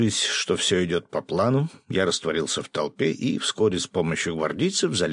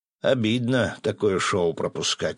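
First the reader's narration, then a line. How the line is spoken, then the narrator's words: Sighing. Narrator (Russian): вздохнул сидящий в специально вынесенном для него кресле Феникс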